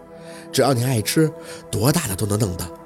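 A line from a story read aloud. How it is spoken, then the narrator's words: Gentle reply. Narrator (Chinese): 文琪他妈很温柔的应着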